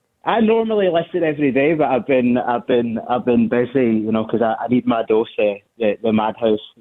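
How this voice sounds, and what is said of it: Glaswegian Scottish accent. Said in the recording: “I'm the Glaswegian ... listening to your accent”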